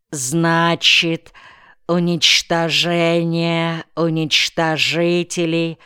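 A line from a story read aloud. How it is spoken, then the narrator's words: Slow careful pronunciation. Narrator (Russian): медленно выговорил незнакомые слова Николай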